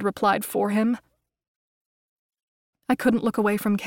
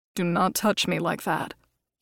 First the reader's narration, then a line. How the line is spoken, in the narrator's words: he said calmly